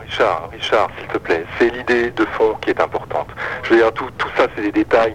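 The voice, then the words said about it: French accent. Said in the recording (French): “même si tu as un accent français”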